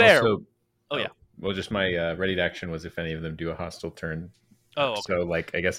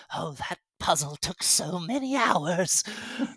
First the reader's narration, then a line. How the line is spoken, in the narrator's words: Grey Aura mutters